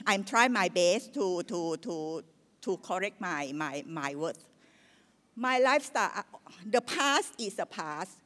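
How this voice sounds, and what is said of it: Thai-accented English. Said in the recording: “I'm Thai ... bear with me if my English not that perfect ... my accent is something like still as a local Thai lah”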